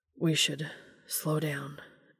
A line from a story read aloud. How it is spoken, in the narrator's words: Dean murmured